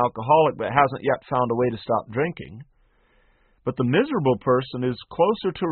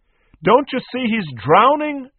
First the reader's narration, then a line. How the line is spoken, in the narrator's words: shouted Nee